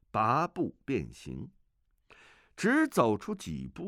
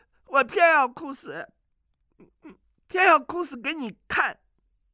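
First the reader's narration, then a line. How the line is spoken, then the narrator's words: Crying. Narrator (Chinese): 阿紫哭着说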